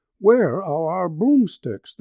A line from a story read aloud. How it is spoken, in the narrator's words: the beldams cried